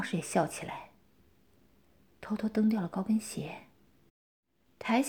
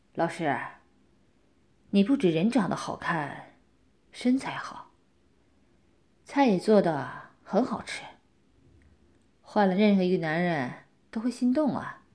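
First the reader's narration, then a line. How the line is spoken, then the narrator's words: Admiring praise. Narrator (Chinese): 我边赞叹王老师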